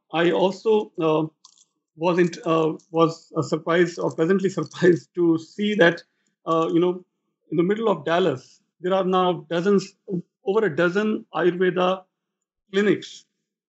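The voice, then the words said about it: Strained, fading hoarse voice. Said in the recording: “I'm losing my voice here.”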